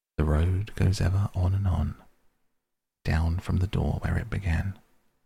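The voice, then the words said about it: Low, soft sung voice. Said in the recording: “in a low voice, as if to himself, he sang softly in the dark”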